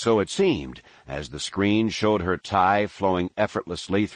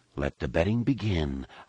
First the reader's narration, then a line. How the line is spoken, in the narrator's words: Han whispered into Leia's ear